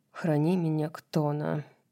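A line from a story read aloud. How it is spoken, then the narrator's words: Mumble. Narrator (Russian): пробормотал Кормак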